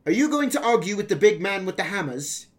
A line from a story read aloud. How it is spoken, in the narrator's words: I yelled